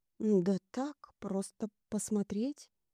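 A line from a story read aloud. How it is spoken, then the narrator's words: Uncertain reply. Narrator (Russian): неуверенно ответил Кирилл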